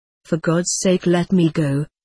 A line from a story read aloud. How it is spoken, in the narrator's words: he moaned feebly